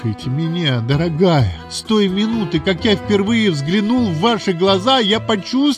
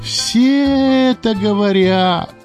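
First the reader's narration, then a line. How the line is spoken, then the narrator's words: Indifferent drawl. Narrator (Russian): равнодушно протянула Мэйзи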